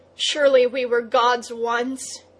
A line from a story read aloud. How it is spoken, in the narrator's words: he cried